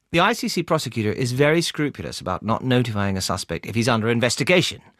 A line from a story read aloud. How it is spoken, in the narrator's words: said Amelia